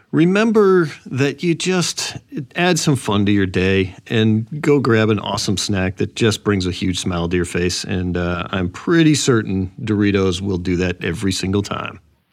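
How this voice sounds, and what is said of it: Polished radio announcer voice. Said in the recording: “Great radio voice too.”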